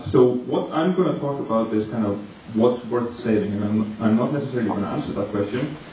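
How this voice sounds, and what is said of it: Icelandic accent. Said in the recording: “My name comes from Iceland, so that's where I grew up, and that's where the accent comes from.”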